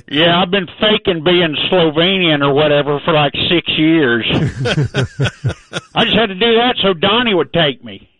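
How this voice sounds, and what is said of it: Put-on Texas accent. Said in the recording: “your Texas accent that you've adopted”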